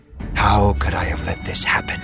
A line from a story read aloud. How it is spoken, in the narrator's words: whispered to himself